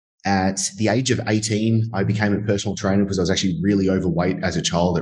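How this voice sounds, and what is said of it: Australian accent. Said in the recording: “that sexy Australian accent ... my Australian accent”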